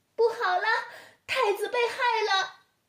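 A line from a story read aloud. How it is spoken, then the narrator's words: Distant alarmed shout. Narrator (Chinese): 喊叫声传来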